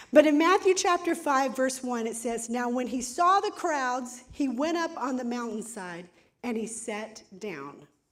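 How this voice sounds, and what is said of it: Hoarse, strained voice. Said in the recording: “I'm getting hoarse because I got a little crazy in worship this morning ... that's what happens is I lose my voice”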